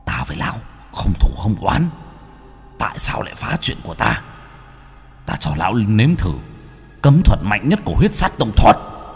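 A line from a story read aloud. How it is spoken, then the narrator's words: Howling, shrieking. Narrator (Vietnamese): miệng hắn gào rít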